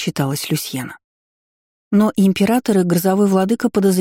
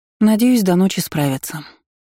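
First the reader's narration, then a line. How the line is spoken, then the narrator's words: Sighed. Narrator (Russian): вздохнула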